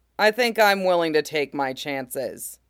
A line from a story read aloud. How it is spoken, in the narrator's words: he says evenly